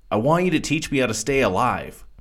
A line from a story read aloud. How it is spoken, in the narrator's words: said much too eagerly